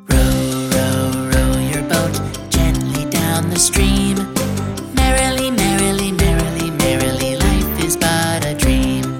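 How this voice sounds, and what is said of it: Whispered singing. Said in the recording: “now let's whisper.”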